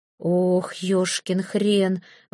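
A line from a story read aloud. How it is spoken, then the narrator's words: Exhaled exclamation. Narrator (Russian): выдохнул Гарун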